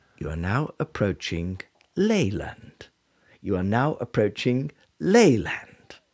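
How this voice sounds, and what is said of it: Train announcement voice impression. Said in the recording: “your best impression ... The person who does the radio the announcements on trains.”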